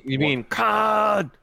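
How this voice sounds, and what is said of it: Impression of the character Khan. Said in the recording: “that's a good impression”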